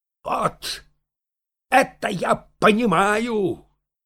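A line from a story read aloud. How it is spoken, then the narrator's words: Shout. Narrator (Russian): крикнул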